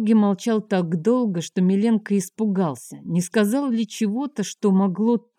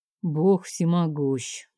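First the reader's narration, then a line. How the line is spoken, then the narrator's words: Sad. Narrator (Russian): наконец повторил Георгий печально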